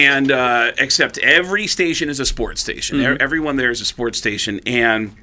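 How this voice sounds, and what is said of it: Usual voice. Nothing is said of it.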